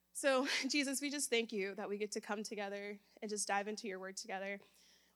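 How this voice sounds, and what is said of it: Nervous, crackling voice. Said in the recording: “I'm nervous. Do you hear the crackling in my voice?”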